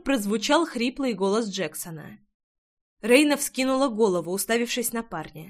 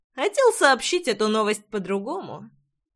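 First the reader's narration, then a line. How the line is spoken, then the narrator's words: Snorting. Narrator (Russian): хмыкнул Джексон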